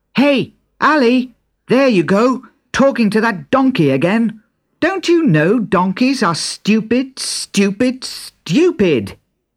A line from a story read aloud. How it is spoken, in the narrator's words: Other children called out